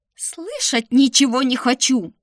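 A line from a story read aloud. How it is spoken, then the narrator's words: Shrieking. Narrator (Russian): завизжала я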